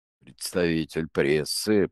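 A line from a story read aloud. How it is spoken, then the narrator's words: Grumbling. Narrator (Russian): проворчал тот, что сопел над правым ухом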